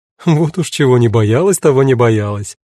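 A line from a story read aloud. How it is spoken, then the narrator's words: Laughing. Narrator (Russian): рассмеялась Кара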